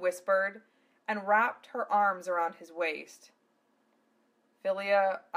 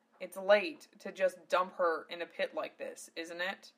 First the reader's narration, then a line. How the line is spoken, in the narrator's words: Zell muttered